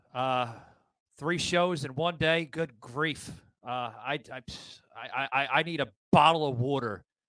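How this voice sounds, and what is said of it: Out of breath, dry mouth. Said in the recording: “I'm out of breath. ... I'm at that point where I have ugh, ugh, dry mouth.”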